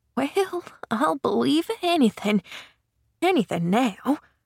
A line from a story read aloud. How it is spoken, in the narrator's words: she muttered to herself